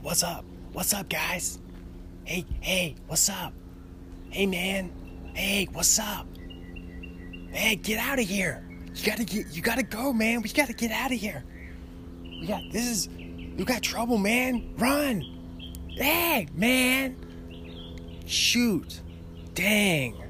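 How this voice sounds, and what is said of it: Imitates another person's voice. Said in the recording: “my Jesse impression”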